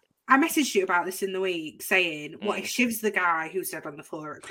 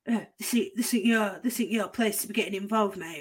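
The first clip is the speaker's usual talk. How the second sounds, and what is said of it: Imitates another person's voice. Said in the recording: “Is that your Phil impression,”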